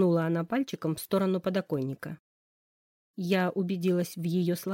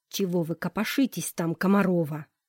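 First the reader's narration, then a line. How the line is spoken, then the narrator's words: Hissed. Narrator (Russian): Прошипел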